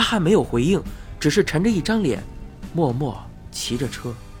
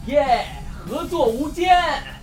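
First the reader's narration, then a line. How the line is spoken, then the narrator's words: Happy shout. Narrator (Chinese): 开心的大喊道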